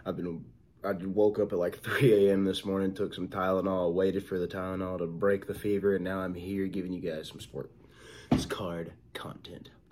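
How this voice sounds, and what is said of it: Sick-sounding voice. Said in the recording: “sorry if I sound different, guys. I am sick ... I really don't feel that well”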